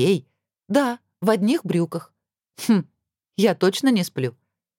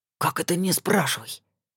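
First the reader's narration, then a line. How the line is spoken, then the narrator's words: Indignant whisper. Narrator (Russian): также шепотом возмутился старший принц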